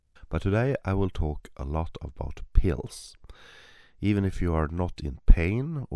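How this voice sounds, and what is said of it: Congested voice from a cold. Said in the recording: “I have a little bit of a cold, so that's why I sound a little bit strange today.”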